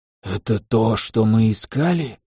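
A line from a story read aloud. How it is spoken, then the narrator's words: Quiet rasp. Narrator (Russian): тихо прохрипел кранаец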